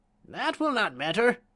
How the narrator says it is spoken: she cried, scowling upon the counselor

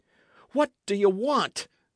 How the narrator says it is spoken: cried Dick

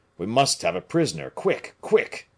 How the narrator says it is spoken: cried Aramis

